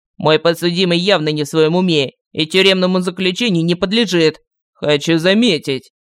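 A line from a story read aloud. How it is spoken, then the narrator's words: Prosecutor's dry snort. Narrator (Russian): хмыкнул прокурор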